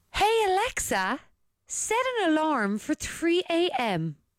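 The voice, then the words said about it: Put-on posh accent. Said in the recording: “use your posh voice”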